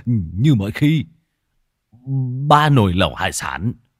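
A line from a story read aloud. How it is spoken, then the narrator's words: Startled stammer. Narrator (Vietnamese): Lão Thọt giật mình lắp bắp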